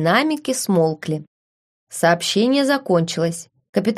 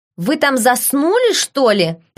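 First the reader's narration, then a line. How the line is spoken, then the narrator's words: Sharp snap. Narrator (Russian): прикрикнул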